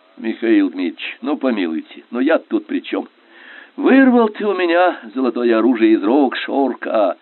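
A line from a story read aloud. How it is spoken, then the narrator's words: Sorrowful sigh. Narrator (Russian): Горестно вздохнул Скобелев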